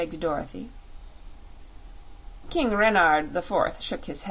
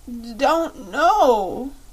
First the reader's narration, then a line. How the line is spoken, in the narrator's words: sobbed the child